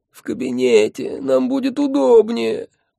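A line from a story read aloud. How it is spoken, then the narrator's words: Groaning. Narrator (Russian): простонал он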